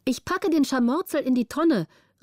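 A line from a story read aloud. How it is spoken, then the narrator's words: Calling out. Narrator (German): rief Petrina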